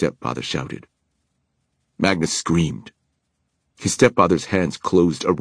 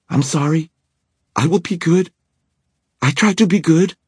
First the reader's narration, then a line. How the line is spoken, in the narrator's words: Magnus coughed and choked, gasped out painfully